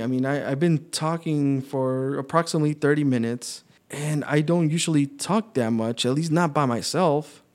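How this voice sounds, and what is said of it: Hoarse, worn-out voice. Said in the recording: “Thanks for putting up with my hoarse voice. Um, I'm definitely running out of voice now. So I guess I pushed it too early”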